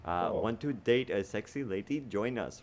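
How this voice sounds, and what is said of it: Unconvincing attempted Russian accent. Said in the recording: “You went anything but Russian there. I didn't even know what that accent was.”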